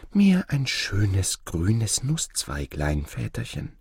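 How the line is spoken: Young girl whispering tenderly. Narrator (German): Die Jüngste schmiegte sich an des Vaters Herz und flüsterte

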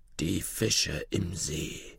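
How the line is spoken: King murmuring. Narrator (German): murmelte der König

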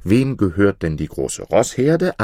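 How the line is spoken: Plain. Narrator (German): antwortete er

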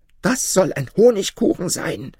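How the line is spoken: Shout. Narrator (German): schrie

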